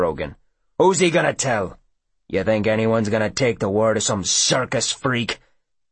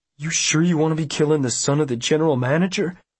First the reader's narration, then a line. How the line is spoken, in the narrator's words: Chisholm asks anxiously